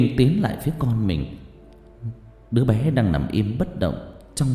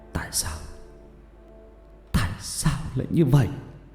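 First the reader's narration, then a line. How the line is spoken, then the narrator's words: Tearful, quivering question. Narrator (Vietnamese): Anh mếu máo hỏi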